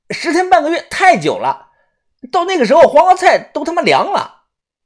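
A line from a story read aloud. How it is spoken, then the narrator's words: Loud. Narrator (Chinese): 豆芽仔大声的说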